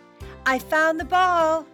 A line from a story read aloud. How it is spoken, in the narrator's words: Suddenly, Liz shouted